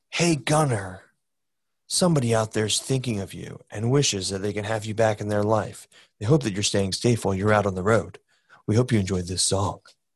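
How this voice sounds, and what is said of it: Soft dulcet radio host voice. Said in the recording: “Good Delilah impression. ... my dulcet tone Delilah voice”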